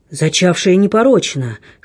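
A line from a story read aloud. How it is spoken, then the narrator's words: Hoarse stranger. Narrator (Russian): хриплым голосом подхватил незнакомец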